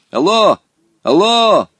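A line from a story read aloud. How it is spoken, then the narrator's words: Shout. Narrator (Russian): крикнул он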